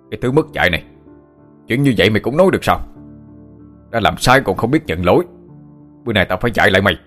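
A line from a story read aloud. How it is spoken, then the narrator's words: Man shouting. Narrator (Vietnamese): Ông ta quát lên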